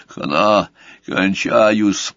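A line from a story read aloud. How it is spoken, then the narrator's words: Hoarse wheeze. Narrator (Russian): просипел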